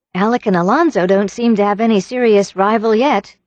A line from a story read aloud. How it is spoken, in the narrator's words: remarked Anne teasingly